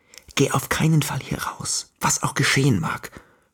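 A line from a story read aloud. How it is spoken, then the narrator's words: Whispered. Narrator (German): flüsterte ich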